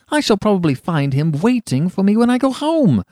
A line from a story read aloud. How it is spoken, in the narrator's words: cried Huey